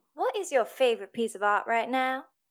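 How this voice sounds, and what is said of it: Put-on Southern drawl. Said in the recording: “I have to pick an accent. Let me get into my southern draw.”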